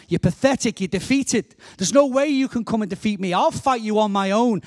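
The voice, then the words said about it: Liverpool accent. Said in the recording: “from Liverpool ... I'm now going to say his words in my accent”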